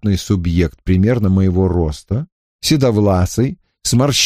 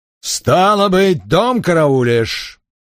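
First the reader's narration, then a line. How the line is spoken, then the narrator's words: Growled. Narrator (Russian): прорычал он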